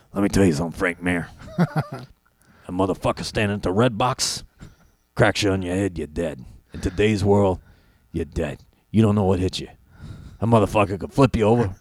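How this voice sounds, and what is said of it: Imitates another person's voice. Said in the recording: “That is a phenomenal impression... I didn't know you were able to do that voice like that... that one you nailed”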